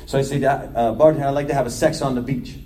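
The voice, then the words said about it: Thick New York accent. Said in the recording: “my accent got thicker”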